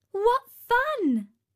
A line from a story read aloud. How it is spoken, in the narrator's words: exclaimed Talia